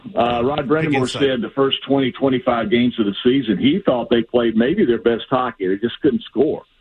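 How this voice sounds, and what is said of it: Southern American accent. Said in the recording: “a guy with a southern accent”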